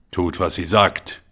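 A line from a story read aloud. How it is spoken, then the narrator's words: Officer growling. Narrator (German): knurrte der Unteroffizier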